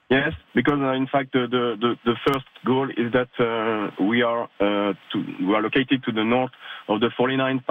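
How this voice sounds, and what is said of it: Hoarse, broken-sounding voice. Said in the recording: “my voice is a little bit broken”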